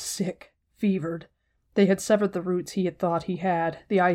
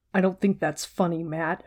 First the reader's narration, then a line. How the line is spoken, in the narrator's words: Rand growled